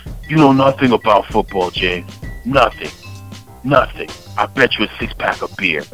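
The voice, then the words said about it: Put-on Persian accent. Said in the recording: “that accent I'm throwing down, I got a Persian father-in-law”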